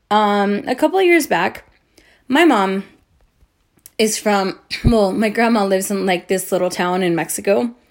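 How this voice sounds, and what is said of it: Drunk-sounding, rambling speech. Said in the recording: “think I sound like an idiot right now because I'm drunk”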